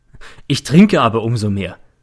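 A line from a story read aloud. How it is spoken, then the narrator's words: Said laughing. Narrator (German): sagte er und lacht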